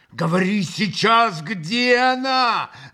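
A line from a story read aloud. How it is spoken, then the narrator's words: Yelling. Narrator (Russian): завопил он в выступлении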